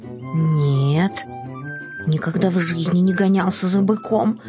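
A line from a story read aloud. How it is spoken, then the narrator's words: Frightened kitten's reply. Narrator (Russian): испуганно ответил котенок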